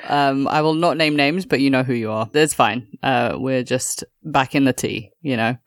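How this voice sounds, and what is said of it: Slightly constricted sore-throat voice. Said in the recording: “my voice is a little bit constricted. I did end up getting sick. I've got that sore throat situation”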